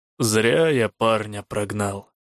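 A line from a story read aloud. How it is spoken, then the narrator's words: Low grumble. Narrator (Russian): проворчал низкий голос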